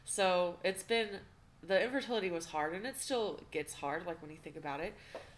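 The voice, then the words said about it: Choked-up, emotional voice. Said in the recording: “I'm still getting a little choked up.”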